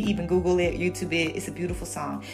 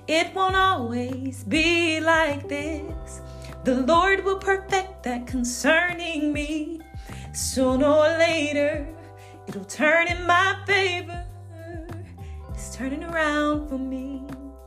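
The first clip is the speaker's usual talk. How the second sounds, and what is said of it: Singing, voice not at its best. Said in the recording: “I'm not in my singing voice best. I'm not in my best singing voice”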